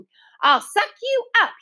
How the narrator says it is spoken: he shouted

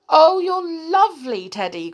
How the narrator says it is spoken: cried Tom

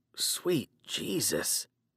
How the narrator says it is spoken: I muttered

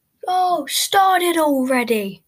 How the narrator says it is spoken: a guy shouts from the crowd

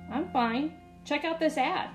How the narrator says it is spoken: I replied impatiently

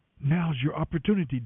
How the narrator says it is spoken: David's men whispered to him

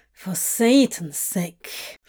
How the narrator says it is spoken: Crowley muttered

